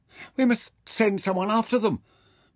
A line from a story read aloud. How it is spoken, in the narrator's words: Mintaka cried in the silence